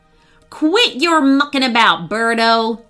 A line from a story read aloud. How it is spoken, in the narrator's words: shouted Wayne